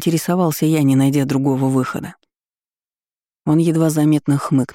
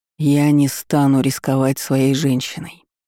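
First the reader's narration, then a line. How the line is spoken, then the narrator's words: Breathed reply. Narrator (Russian): выдохнула в ответ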